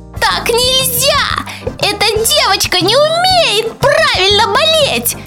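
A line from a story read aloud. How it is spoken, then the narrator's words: Squeaky tiny voice. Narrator (Russian): Запищал другой микроб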